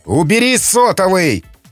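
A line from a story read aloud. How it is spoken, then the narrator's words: Yelling. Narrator (Russian): заорал Макмиллан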